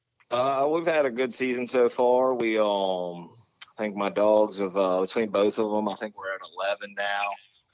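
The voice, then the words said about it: Regional Delmarva peninsula accent. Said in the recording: “I can definitely tell the accent in there. ... there's definitely one there.”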